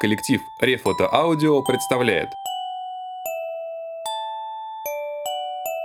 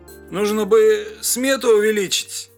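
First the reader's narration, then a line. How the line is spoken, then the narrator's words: Hoarse wheeze. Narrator (Russian): прохрипел он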